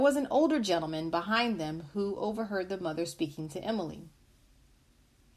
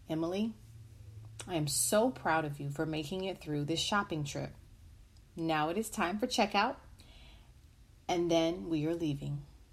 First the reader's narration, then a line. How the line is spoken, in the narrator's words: The mother calmly said